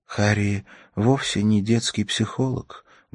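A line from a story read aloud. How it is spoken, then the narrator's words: Sad, smiling tone. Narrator (Russian): грустно улыбнулась Ракель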